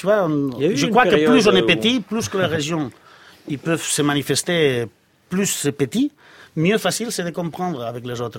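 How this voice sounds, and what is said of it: Catalan accent in French. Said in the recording (French): “votre accent que vous entretenez, l'accent catalan”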